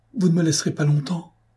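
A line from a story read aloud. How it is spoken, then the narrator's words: Pleading, just reviving. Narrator (French): implora Virgile en reprenant ses sens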